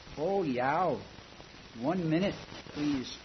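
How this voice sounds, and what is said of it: Heavy Nordic accent. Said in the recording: “with a heavy Nordic accent”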